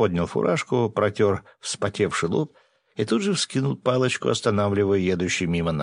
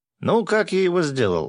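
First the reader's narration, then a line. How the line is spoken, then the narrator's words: Joyful shout. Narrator (Russian): радостно заорал Гензо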